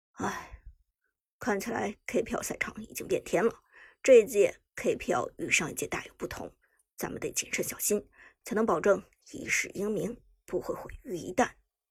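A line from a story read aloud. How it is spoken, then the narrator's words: Sighing scholar. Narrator (Chinese): 书生摇头叹息道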